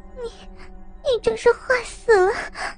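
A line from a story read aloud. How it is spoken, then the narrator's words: Breathless. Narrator (Chinese): 喘着气说道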